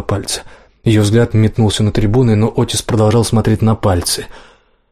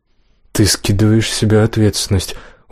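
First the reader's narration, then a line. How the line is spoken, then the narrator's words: Sad smiling. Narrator (Russian): грустно улыбнулся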